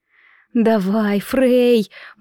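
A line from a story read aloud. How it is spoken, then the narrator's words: Agonized moan. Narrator (Russian): мучительно стонала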